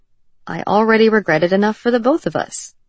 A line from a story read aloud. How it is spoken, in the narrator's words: he replied cheerfully